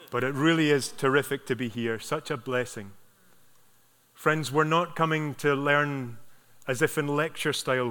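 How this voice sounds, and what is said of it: Thick brogue accent. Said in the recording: “I think my brogue was very thick. Hopefully it's not too thick this morning.”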